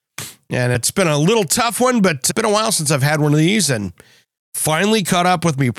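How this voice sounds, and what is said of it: Hoarse, strained voice. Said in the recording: “my voice is pretty hammered. I've been fighting a cold this week.”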